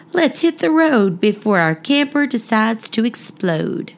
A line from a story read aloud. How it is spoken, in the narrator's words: He chuckled and said